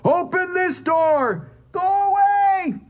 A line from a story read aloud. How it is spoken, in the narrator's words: Joseph roared